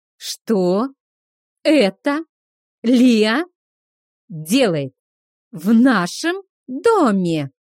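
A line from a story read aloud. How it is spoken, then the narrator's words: Clipped, emphatic. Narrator (Russian): отчеканил Кейха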